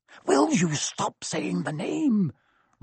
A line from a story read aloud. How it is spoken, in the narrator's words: Ron hissed